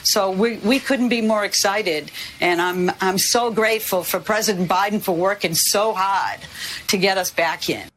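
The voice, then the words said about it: Strong Boston accent. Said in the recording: “A plus Boston accent there”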